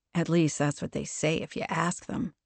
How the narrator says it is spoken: Ame added, not quite under her breath

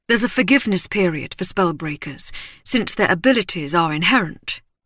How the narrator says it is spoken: he said, his voice warm and quick

